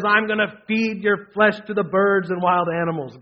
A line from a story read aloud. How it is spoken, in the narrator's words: Goliath yelled